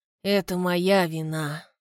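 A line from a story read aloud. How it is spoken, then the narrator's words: Weary. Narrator (Russian): устало мужчина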